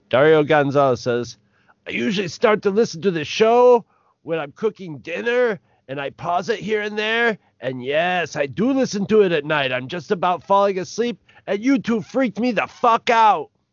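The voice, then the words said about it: Cheesy Cheech impression. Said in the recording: “do a cheesy Cheech voice for Dario ... I'll go totally Cheech when I do his voice ... this is my Dario Gonzalez voice”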